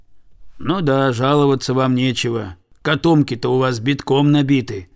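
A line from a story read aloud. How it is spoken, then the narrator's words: Peasant's grumble. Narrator (Russian): буркнул крестьянин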